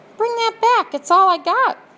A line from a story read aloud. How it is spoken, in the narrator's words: shouted the prisoner